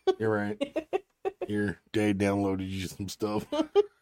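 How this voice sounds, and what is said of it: Creepy character voice. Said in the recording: “I was doing it in the voice ... Creepy voice.”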